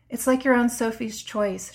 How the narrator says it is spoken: she sighed

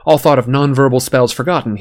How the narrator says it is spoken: he yelled

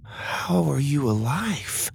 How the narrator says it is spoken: Lydia whispered

